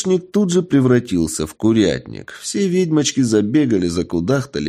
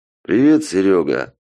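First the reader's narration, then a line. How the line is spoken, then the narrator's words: Dry. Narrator (Russian): сухо сказал он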